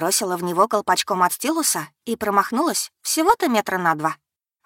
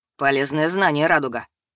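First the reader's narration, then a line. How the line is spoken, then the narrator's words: Dry remark. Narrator (Russian): сухо заметил он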